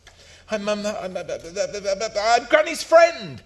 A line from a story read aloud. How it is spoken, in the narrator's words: spluttered Ben